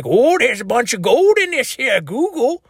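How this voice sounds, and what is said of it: Old-time prospector character voice. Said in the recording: “sounding like a prospector ... I've been working on my prospector impression”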